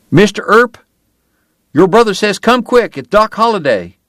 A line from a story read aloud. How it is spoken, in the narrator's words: Will Eberhardt and one of the Riney boys ran to the church yelling